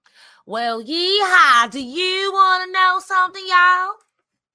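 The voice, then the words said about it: Put-on Texas accent. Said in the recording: “I hope she does it in a Texas accent ... Perfect.”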